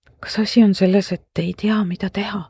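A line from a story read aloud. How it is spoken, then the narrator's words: Meaningful whisper. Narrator (Estonian): sosistasin marglikult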